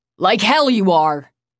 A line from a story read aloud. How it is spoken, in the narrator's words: Finn barked, his voice coming from out of nowhere